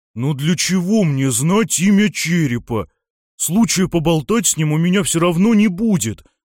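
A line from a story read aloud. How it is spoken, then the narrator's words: Loud declaration, fat thief. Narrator (Russian): громко заявил толстомясый вор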